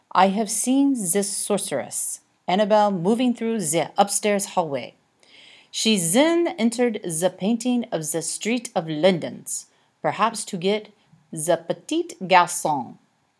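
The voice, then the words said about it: Put-on character accent. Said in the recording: “This will be much easier if you drop that accent”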